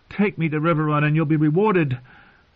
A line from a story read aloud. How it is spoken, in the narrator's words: said desperately